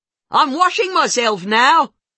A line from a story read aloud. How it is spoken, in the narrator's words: she yells